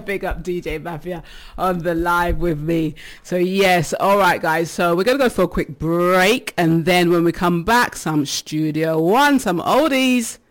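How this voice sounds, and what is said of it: Out of breath. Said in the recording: “I've been dancing. That's why I'm out of breath. ... So yes, I'm out of breath.”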